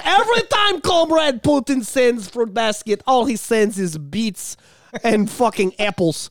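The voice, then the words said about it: Exaggerated put-on Ukrainian accent. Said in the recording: “I'm trying to do a horrible Ukraine accent.”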